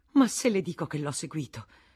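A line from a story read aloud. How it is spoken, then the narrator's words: Exclamation. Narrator (Italian): esclamò la Vatnaz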